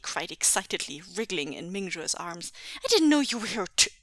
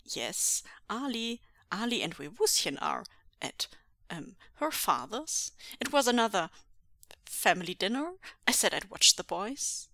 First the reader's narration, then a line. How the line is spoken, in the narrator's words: stammered, clearly trying to think on the spot